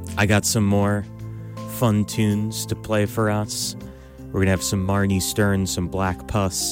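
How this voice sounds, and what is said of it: Usual voice. Nothing is said of it.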